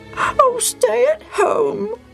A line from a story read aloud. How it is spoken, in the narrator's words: Bobo said slowly and sadly